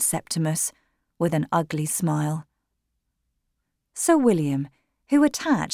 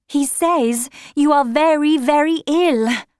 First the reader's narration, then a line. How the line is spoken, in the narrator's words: Retzia cried